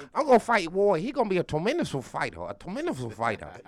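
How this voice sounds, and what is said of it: Imitates another person's voice. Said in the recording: “Keep using that voice. ... impersonation”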